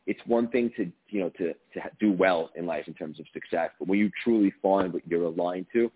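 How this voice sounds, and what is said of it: New York tri-state area accent. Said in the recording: “I heard the accent. I'm from New Jersey, so I was like, oh, he's one of me. He's one of my peeps from the tri-state area.”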